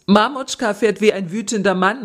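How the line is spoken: Excited call. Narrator (German): rief begeistert

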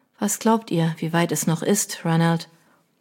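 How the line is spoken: Quiet question. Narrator (German): Leise fragte

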